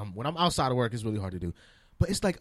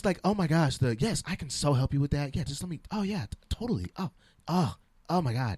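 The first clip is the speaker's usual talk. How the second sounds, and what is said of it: Annoying code-switching work voice. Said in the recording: “My code switching voice, I feel, is annoying.”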